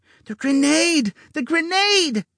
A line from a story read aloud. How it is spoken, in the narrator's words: Jellybean began screaming in their mind